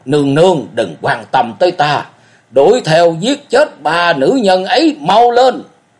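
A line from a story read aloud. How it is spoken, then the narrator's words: Roaring. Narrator (Vietnamese): Cổ Du gầm rống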